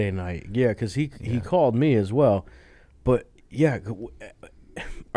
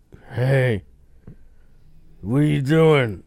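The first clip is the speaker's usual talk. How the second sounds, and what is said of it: Impression of a friend's voice. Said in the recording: “That's a good impression of me... No, you were worse than that.”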